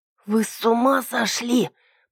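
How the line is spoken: Hoarse wheeze. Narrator (Russian): просипела я

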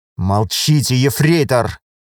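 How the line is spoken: Officer speaking through teeth. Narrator (Russian): Процедил лейтенант

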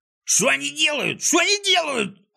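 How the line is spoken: Yelling. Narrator (Russian): орал Клопс

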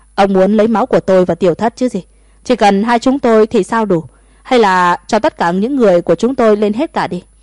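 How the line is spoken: Laughing loudly. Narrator (Vietnamese): Thomas cười lớn

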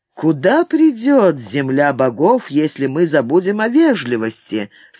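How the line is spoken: Plain. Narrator (Russian): спросил Оми

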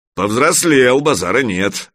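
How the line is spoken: Approving grumble. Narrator (Russian): одобрительно проворчал Гучко

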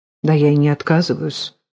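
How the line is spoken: Muttered. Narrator (Russian): пробормотал Троепольский

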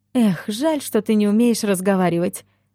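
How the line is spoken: Sigh. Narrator (Russian): вздохнула я

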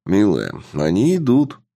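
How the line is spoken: Calm male voice. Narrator (Russian): спокойно сказал мужчина

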